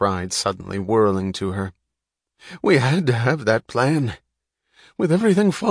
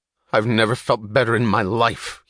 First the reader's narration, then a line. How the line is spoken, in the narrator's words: he snapped